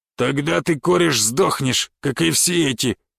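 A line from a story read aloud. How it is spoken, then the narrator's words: Rough reply. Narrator (Russian): грубо ответил третий голос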